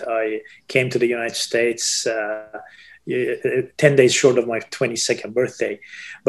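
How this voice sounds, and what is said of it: Foreign accent in English. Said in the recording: “As you see from my accent”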